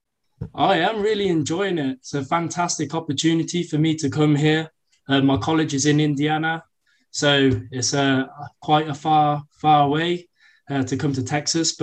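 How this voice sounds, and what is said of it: English accent. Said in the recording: “I hear a bit of an accent. ... I'm from England, the UK”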